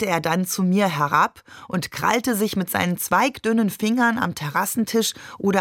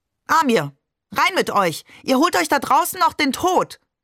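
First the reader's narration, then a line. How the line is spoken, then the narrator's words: Shouting. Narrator (German): schrie sie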